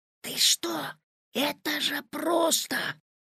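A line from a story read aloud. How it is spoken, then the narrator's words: Whispering. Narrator (Russian): зашептал Петя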